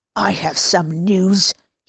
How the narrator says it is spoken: hissed between clenched teeth

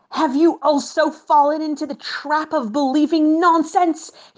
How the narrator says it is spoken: roared in rage

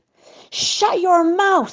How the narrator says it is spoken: he screamed at Fievish, trying to make himself heard over the sound of the Tehillim that the parish was singing loudly

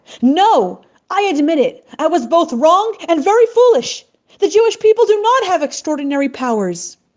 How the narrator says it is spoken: Mustafa began to tremble and yelled out

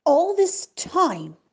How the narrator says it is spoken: asserted the Tsar angrily

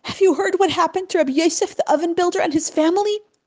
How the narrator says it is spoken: he asked Baruch in a choked voice

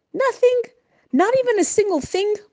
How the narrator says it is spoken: blurted the Magid finally

